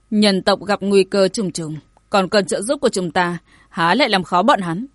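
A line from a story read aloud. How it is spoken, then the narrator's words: Faint dismissive laugh, young man. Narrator (Vietnamese): Thanh niên tóc dài cười nhạt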